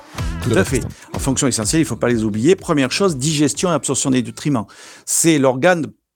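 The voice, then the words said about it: Southern French accent. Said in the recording (French): “On aime cet accent du sud qui nous apporte du soleil.”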